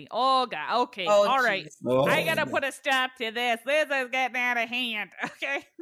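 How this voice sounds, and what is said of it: Put-on Minnesota accent. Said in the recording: “See, this is where a Minnesota accent really comes in handy.”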